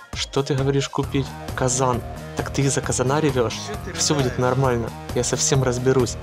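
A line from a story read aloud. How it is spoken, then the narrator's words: Calm reply. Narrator (Russian): Мирослава ей спокойно ответила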